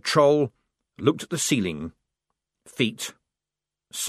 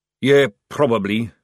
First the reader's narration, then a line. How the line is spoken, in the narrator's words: said the sergeant